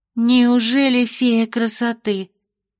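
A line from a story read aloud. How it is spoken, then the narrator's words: Envious breathed chorus. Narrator (Russian): С завистью выдохнули студентки на первом ряду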